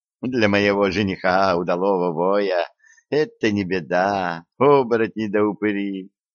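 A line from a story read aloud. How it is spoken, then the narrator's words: Sorceress laughing. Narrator (Russian): рассмеялась чародейка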